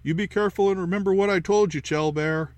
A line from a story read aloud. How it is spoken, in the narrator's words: I hollered after her